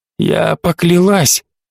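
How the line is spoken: Hoarse voice. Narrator (Russian): хрипло проговорила Карин

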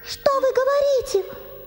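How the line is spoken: Exclaiming. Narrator (Russian): воскликнула Герда

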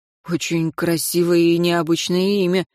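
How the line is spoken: Forced polite remark. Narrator (Russian): выдавил Хагал банальную любезность

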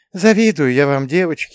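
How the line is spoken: Sighing. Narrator (Russian): вздохнула Екатерина Алексеевна

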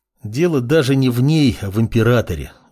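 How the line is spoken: Sighing mage. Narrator (Russian): вздохнул маг

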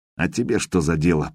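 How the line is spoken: Muttering. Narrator (Russian): пробормотал

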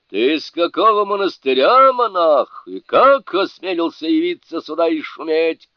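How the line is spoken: Shouting spirit. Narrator (Russian): крикнул дух

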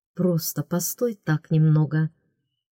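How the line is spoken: Whisper. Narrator (Russian): прошептал

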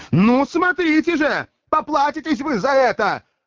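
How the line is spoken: Shout. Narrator (Russian): прокричал

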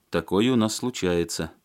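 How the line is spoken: Young man sighing. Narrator (Russian): вздохнул парень

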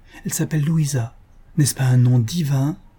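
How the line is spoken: Impetuous lovestruck exclamation. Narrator (French): s'écria le jeune homme dans le mouvement impétueux d'un jeune amour qui s'éveille

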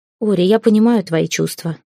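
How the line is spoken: Gentle, to daughter. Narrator (Russian): сказала она, мягко глядя на дочь

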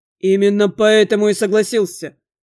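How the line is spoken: Open laugh. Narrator (Russian): Уже не таясь, хохотнул мой собеседник

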